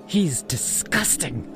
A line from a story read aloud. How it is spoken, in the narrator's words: she hissed, her voice barely a whisper